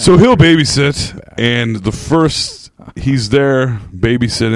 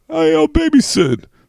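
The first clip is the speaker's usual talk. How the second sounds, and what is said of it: John Travolta impression. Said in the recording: “That's a terrible Travolta impression. ... It's not bad.”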